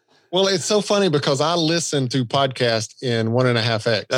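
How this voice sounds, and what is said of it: Southern American accent, drawn-out speech. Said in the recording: “my Southern accent, you know, it's really tough for me to talk fast ... I've got a Southern accent, but I don't talk all that slow. But then when I cut it down to normal speed, I do. ... I tend to draw things out”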